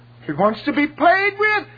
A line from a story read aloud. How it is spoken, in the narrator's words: he cries